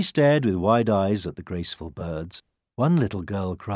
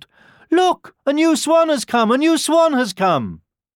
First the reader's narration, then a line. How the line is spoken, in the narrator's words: a group of children cried out